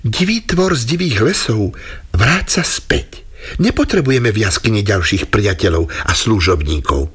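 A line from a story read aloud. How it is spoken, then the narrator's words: Said with a smile. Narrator (Slovak): Žena sa usmiala a povedala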